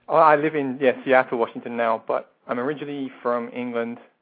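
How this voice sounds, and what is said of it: Slight Irish-English accent. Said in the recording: “We pick up a slight accent there... with an Irish-English accent”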